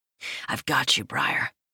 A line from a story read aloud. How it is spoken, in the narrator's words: I murmur